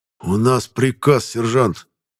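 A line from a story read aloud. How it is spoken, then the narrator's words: Displeased, through teeth. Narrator (Russian): процедил сквозь зубы Краев, недовольно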